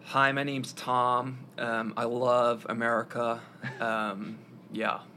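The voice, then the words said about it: Put-on American accent. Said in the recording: “can we hear your American accent?”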